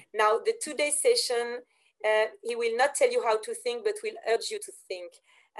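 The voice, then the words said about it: Speaks with a noticeable accent. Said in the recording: “That's such an amazing sounding accent.”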